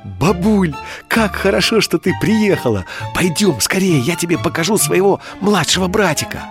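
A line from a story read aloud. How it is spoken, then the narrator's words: Joyful child's exclamation. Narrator (Russian): Дима радостно восклицает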